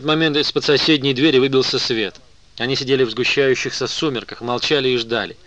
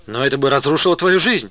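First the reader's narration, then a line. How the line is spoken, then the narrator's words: Exclaiming. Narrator (Russian): воскликнула Вера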